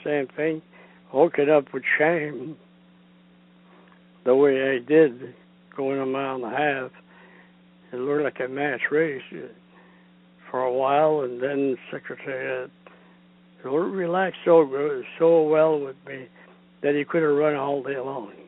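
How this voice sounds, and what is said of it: French-Canadian accented English. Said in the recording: “jockey Ron Turcotte speaking with his French-Canadian accent”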